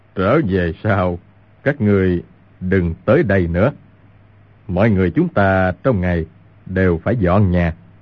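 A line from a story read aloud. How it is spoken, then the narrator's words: Smiling. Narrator (Vietnamese): Nhất Đăng mỉm cười nói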